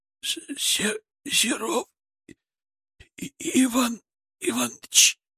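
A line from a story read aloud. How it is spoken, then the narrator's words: Forced out between coughs. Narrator (Russian): выдавил он между приступами кашля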